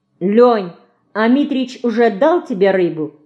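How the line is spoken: Plain. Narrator (Russian): спросила Динка

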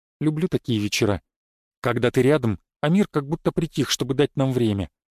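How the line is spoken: Quiet. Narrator (Russian): тихо сказала

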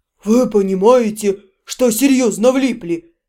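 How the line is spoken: Menacing rumble. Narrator (Russian): грозно пророкотал Янур

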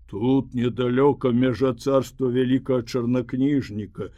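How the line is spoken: Plain. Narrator (Belarusian): сказаў асілак

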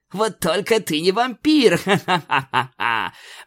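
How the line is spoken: Laughing. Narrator (Russian): посмеялась королева

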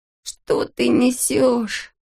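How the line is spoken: Groaned. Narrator (Russian): застонал Алешка

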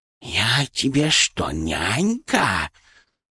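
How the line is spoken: Loud hiss. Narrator (Russian): прошипела Шипа так громко

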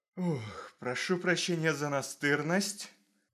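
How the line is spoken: Exhaled. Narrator (Russian): Выдохнул Томас

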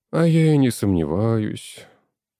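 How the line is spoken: Sighing. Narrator (Russian): вздохнул Афанасьев

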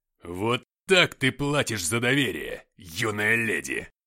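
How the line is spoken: Roaring. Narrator (Russian): взревел он

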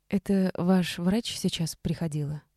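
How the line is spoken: Unsteady, cautious question. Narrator (Russian): Нетвердым голосом спросила Саша, пытаясь проявить осторожное участие

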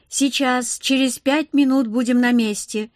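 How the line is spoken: Loud. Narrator (Russian): громко отозвался Ниоки

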